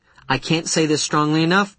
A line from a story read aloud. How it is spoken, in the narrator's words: Goldstone replied calmly